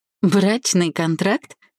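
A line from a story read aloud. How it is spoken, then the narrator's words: Short laugh. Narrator (Russian): хохотнула я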